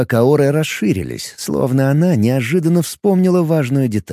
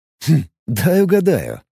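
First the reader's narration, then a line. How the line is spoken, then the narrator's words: Snorting. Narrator (Russian): хмыкнул Алекс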